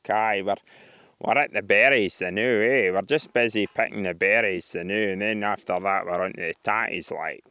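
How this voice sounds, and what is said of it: Broad Perthshire Scottish accent. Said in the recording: “the right Perth accent, they've got a great tendency to repeat A after everything. It's that East Coast thing.”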